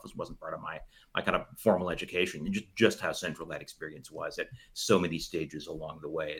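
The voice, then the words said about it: American-sounding English accent. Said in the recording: “your accent fooled me. I thought you were for sure American.”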